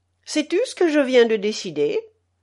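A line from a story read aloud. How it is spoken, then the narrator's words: Cheerful. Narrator (French): dit-il gaiement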